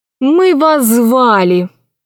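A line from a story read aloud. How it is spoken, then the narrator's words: Tired. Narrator (Russian): устало ответила госпожа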